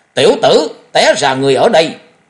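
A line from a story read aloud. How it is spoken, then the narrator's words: Quiet but ringing shout. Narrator (Vietnamese): Tiếng quát tuy nhỏ nhưng vang dội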